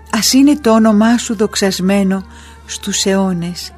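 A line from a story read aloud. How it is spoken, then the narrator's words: Whispered. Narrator (Greek): ψιθύρισε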